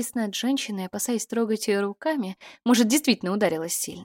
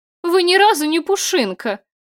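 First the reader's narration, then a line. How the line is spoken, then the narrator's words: Relieved laughter. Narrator (Russian): Я расхохотался, чувствуя, как напряжение последнего дня отпускает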